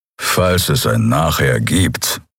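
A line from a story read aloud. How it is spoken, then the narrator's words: Growl. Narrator (German): knurrte Keru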